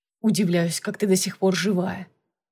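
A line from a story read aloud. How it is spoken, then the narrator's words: Muttered. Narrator (Russian): пробормотал он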